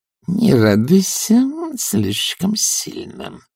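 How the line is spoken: Hissed. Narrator (Russian): прошипела она

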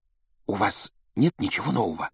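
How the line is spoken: Secretive whisper. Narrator (Russian): добавила она шепотом, чтобы не услышала мадам Помфри

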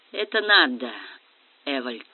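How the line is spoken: Gentle voice. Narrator (Russian): мягко сказал Квицинский

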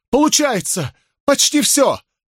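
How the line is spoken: Exclaimed. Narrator (Russian): воскликнула Берри

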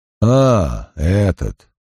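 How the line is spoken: Inspector's mumbling grumble. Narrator (Russian): пробурчал инспектор

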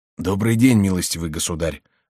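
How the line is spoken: Husky voice. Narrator (Russian): сказал он сиплым голосом, звуки которого казались де Бушажу нежнее и приятнее голосов херувимов

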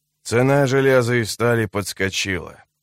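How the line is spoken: Grumbling. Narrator (Russian): проворчал он

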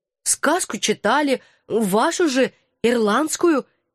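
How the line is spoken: Uncertain recollection. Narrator (Russian): неуверенно припомнила я

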